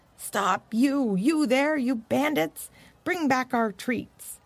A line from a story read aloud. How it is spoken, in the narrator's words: yelling